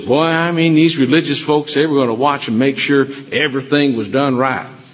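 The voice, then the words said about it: West Texan accent. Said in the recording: “that's West Texan accent”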